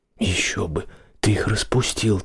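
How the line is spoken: Quiet. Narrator (Russian): так же тихо ответила она

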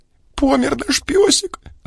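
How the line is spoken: Sobbing. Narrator (Russian): зарыдала, не сдержавшись, Анюта

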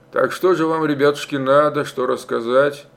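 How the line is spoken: Sullen quiet question. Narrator (Russian): угрюмо, тихо спросил он

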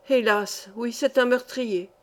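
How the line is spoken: Sighing old man. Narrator (French): dit en soupirant le vieillard

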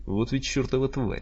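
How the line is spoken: Muttering. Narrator (Russian): бормотал он

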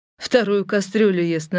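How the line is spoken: Mocking admiration. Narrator (Russian): насмешливо восхитился Климов

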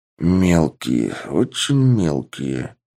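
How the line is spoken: Muttering. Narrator (Russian): пробормотал босс

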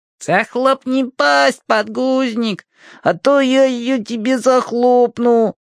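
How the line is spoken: Creaky rasp. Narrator (Russian): проскрипел подгузник

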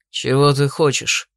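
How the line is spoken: Grumbling. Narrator (Russian): пробурчал Дрейк

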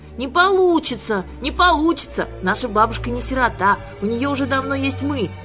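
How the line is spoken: Shouting. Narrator (Russian): закричала Юлька

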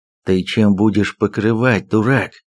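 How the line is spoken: Hissing in ear. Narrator (Russian): зашипел он мне в ухо

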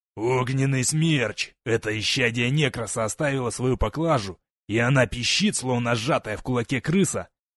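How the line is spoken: Hoarse gurgling laugh, pained. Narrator (Russian): Лежащий в луже крови Дарнет хрипло рассмеялся булькающим кашлем, кривясь от боли

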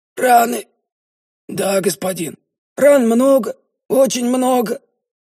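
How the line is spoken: Strained, forced out. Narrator (Russian): выдавил рыжий

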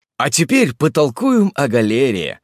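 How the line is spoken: More cheerful tone. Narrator (Russian): сказал я еще более бодрым тоном

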